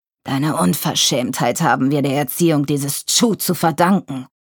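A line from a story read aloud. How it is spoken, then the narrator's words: Growled. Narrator (German): knurrte Vater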